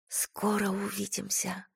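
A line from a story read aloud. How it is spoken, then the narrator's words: Whisper. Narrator (Russian): прошептала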